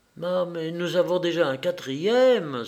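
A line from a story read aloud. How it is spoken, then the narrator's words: Crying out. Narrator (French): s'écria la comtesse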